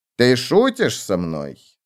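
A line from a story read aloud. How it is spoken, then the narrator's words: Stern question. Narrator (Russian): строго спросила мать барракуда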